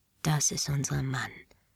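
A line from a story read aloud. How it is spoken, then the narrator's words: Whispered. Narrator (German): flüsterte sie mir zu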